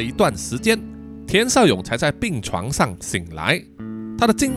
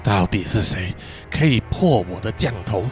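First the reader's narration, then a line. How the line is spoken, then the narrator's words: Wounded, breathless. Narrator (Chinese): 光头男人按着自己胸口上的伤口，气喘吁吁地说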